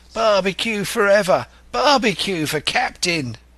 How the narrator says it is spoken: they cried

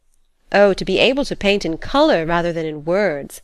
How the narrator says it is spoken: exclaimed Miss Mayblunt, losing herself in a rhapsodic dream

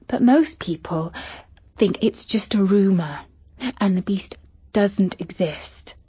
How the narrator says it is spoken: whispered Katie

